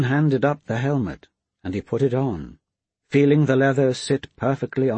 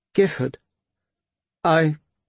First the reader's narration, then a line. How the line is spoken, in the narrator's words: Roan faltered